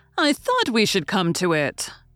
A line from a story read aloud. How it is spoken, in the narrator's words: Jaggers said triumphantly